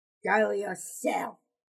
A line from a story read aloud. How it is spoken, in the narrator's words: Crooker growled